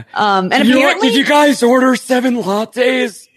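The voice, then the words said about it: Impression of TV character Badger. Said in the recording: “That's a really good impression. ... my Badger impression.”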